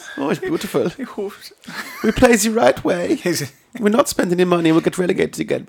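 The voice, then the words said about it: Imitates another person's accented voice. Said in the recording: “Back to the accent, shall we? ... I think I've nailed my Daniel Farke.”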